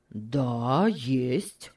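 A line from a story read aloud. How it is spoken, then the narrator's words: Gruff speech. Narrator (Russian): сказал он грубо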